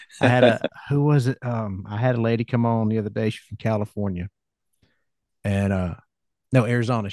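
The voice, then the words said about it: Southern American country accent. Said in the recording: “It's good to hear a Southern accent ... That I have in spades ... you got a country accent”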